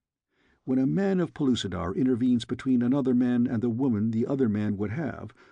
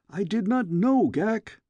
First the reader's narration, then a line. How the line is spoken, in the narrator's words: I cried